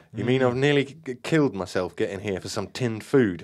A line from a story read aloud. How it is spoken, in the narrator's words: I groaned dejectedly